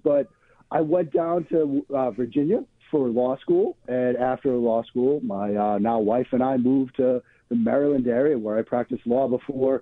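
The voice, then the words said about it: Boston accent. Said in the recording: “the Boston accent gives it away. I have tried to shake the Boston accent.”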